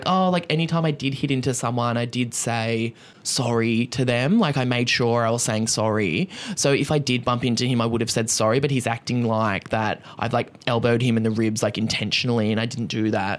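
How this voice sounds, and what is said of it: Impression of Martha. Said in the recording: “Good voice ... that was my Martha impression”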